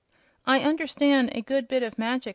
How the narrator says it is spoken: said he

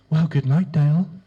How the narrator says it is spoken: he said in her sweet, husky voice

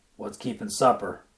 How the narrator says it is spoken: growled

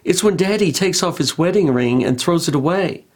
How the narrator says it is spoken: The little girl said in a small, hesitant voice

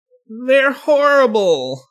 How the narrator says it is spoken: Austin whined

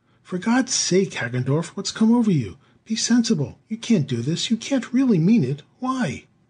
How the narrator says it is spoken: burst out indignantly

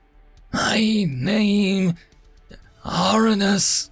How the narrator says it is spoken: wheezed again, her words sounding strangled

